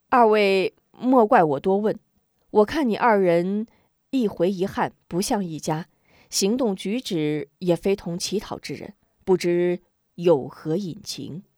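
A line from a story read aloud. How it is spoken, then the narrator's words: Slight smile. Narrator (Chinese): 韩平微微一笑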